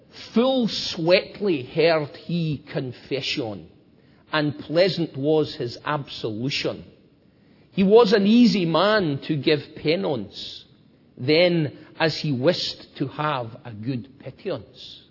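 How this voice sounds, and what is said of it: Put-on Scottish accent reading verse. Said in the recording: “I'm going to try and read it to you in Middle English, okay, with a Scottish accent.”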